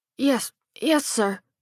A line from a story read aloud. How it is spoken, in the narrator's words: the kid stammered